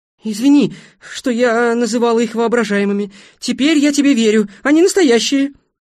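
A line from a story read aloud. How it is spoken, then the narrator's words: Shouted. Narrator (Russian): Человек-индиго прокричал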